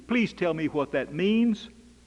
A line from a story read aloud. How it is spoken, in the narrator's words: people in the pew plead